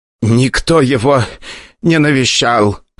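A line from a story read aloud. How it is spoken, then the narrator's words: Wheezing. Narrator (Russian): хозяин клиники уже хрипел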